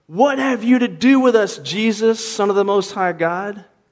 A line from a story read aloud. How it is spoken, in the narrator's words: They said, they screamed out